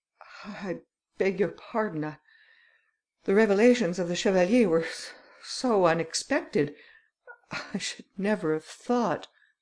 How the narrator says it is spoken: He said to his friends in a trembling voice

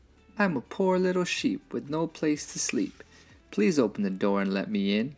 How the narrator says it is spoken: said the big bad wolf in a sweet little voice

